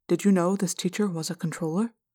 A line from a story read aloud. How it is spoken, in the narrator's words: I asked Prince Jake, making my voice very quiet